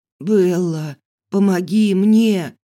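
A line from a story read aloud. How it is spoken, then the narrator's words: Hoarse wheeze. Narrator (Russian): прохрипел он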